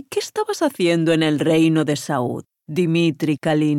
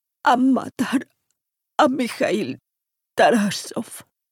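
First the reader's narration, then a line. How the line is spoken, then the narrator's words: Moaned. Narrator (Spanish): gimió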